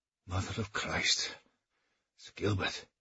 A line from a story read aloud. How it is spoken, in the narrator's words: gasped, looking dazed